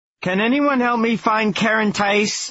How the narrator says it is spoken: Lars shouted

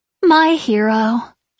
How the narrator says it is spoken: she sighed, and then snorted

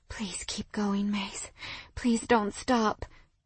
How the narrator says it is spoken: I begged breathlessly

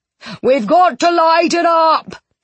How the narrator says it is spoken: he yelled

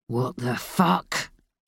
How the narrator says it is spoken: he growled

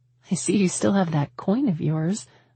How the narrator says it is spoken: I laughed

